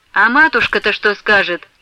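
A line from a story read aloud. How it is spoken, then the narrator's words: Cold. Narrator (Russian): холодно промолвила Головщица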